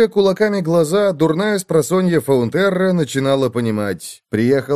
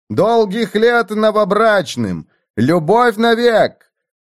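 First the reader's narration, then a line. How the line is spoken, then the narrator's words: Heralds shouting. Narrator (Russian): Глашатые кричали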